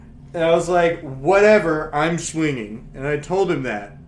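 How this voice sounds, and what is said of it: Usual voice. Nothing is said of it.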